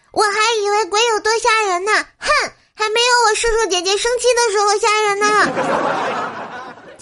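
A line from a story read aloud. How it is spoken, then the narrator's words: Loud clamoring. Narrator (Chinese): 她大声嚷嚷说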